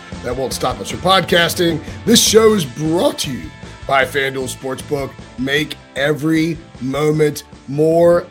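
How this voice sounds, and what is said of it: Hoarse, worn-out voice. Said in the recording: “my voice is completely shot ... as I recover from a sliming ... I feel like I get sick every time I travel”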